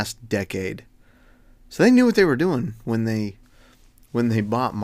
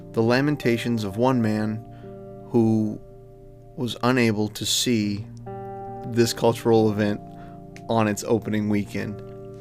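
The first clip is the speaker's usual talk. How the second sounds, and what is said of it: Mock-sad, mournful voice. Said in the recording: “you can hear the sadness in my voice”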